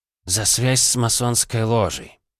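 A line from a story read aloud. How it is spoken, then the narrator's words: Sighing answer. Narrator (Russian): вздохнув, ответил он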